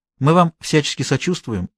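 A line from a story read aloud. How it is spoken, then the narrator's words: Said in a caring tone, by a woman. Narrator (Russian): прежним заботливым тоном произнесла женщина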